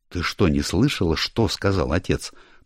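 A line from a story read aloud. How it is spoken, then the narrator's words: Meaningful, through gritted teeth. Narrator (Russian): процедил Ричард со значением в голосе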